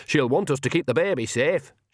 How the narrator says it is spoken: she added loudly

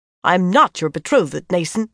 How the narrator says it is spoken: she snapped, seething at having to say that aloud for everyone to hear

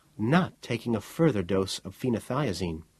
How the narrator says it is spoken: Miss Lee said evenly

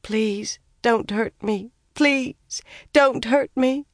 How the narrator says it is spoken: Somehow she managed, whimpering

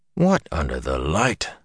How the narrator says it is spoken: Tom murmured

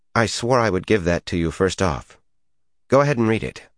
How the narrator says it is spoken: Her voice firmed as she added

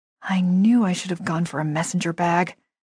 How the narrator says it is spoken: I muttered

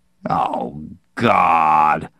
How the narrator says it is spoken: Max groaned

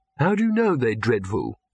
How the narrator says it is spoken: said Victor weakly

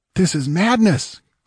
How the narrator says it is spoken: cried Servius, staggering up and clutching his throat as if he already felt the noose closing about it

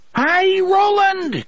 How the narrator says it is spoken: Cuthbert screamed deliriously

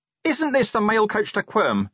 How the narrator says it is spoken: he shouted

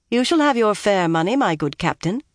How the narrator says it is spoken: Elaine told him coolly

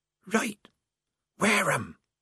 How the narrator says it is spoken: said the mystery voice hoarsely

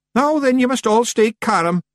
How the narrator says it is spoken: yelled Rob Anybody

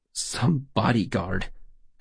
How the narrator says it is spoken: Adams said bitterly

